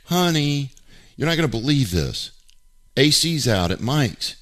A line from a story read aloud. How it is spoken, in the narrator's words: the reactive person proceeds to yell into the kitchen